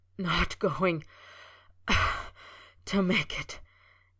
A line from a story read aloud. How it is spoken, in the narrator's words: he gasped, shaking with the dagger-like pain